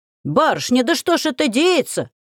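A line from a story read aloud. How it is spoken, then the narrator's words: Man's wail. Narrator (Russian): взвыл мужик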